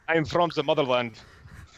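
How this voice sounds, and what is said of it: Unconvincing fake Russian accent. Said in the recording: “fake Russian accent ... Not even as convincing as Scarlett doing a Russian accent”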